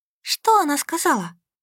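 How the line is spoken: Whispered in ear. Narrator (Russian): зашептала мне в ухо сестра

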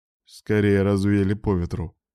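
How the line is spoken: Grim joke. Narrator (Russian): мрачно пошутил Грейсток

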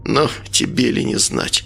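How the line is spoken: Grumbled. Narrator (Russian): буркнул Николай

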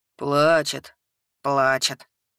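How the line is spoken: Gloomy confirmation. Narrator (Russian): мрачно подтвердили тролль и эльф

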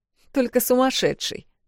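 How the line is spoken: Short laugh. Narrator (Russian): хохотнула Эл

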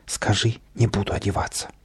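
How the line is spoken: Muffled whisper. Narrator (Russian): Каприска из-под подушки шепнул

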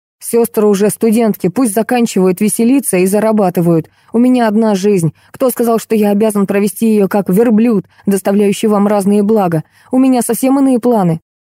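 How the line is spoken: Barked. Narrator (Russian): Леонид гаркнул

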